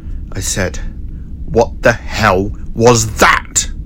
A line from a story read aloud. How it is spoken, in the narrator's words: he said through gritted teeth